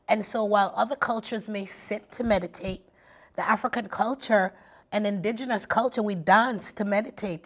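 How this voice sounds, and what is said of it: Jamaican accent. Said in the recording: “every time you talk like that, all of a sudden you get the accent ... I am a Jamaican woman”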